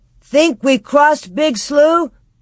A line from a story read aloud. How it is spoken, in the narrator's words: shout